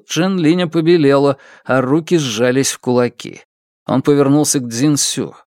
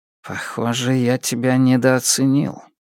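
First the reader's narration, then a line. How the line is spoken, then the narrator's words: Quiet. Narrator (Russian): сказал Джен Линь тихо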